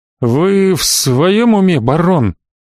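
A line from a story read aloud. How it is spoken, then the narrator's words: Forced out with effort. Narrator (Russian): все же, найдя в себе силы, выдавил виконт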